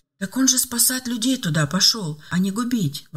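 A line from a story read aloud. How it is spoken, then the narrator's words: Mother's moved exclamation. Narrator (Russian): воскликнула растроганно мать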